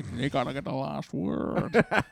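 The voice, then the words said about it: Imitates another person's voice. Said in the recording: “Sean Connery in a white suit... That's my only good impression... It's really not a good impression... It's very good.”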